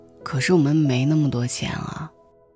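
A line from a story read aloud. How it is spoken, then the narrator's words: Sighing. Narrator (Chinese): 阿姨叹了口气，对医生说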